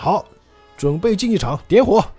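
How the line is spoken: Shouting. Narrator (Chinese): 卡兹就喊到了

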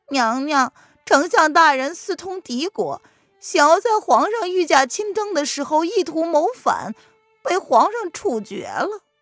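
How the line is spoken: Bitter smile. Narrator (Chinese): 小扇子苦苦的一笑

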